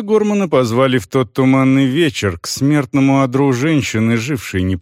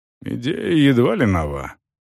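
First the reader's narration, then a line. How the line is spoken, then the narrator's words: Muttering. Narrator (Russian): пробормотал Виннеблз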